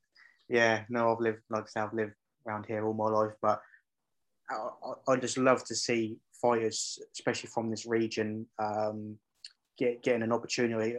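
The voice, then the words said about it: Norfolk English accent. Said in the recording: “I thought I recognised the accent ... I love the old Norfolk accent. It's lovely.”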